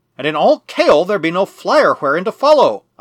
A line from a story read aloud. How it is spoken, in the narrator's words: I cried